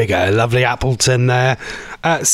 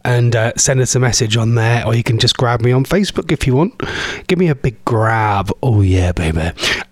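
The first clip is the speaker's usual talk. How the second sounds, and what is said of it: Put-on sultry sexy voice. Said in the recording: “this is my sexy voice”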